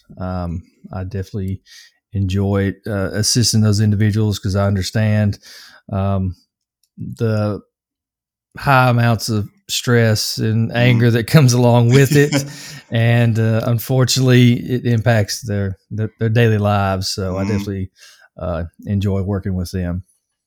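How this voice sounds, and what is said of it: Southern American accent. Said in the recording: “I actually like the Southern accent. I think it sounds really cool.”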